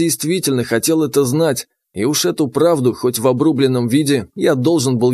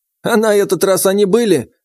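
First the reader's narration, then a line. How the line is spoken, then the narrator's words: Snorting grunt. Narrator (Russian): хмыкнул тренер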